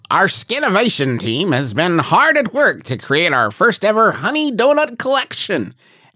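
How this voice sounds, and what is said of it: Imitation of Dave Skinner. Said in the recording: “my Dave Skinner voice ... It's like Dave Skinner is right here with us.”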